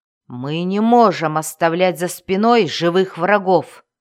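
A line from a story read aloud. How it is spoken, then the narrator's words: Roaring. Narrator (Russian): взревел Хивстаг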